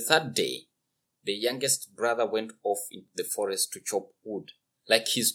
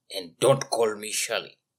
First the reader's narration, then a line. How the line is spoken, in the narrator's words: growled the middle brother